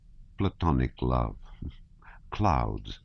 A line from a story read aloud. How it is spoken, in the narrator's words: he muttered